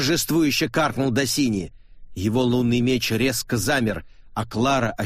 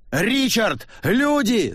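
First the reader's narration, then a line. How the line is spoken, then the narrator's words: Screaming. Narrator (Russian): завопила Клара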